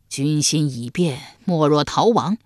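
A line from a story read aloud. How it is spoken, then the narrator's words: Sighing. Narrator (Chinese): 一牙叹道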